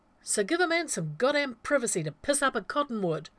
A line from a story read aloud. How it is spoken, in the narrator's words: Rodney snapped